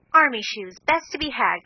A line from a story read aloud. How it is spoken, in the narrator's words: cried Joe